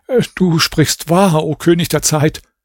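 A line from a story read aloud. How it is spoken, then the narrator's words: Stammering. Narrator (German): Raschid sagte stammelnd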